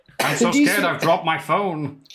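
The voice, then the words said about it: Nasal impression of another person. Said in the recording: “That's a weird Pachiti impression, that. ... Just all nasal. ... you still had the depth of your voice”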